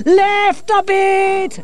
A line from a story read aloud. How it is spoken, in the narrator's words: Angelo shouted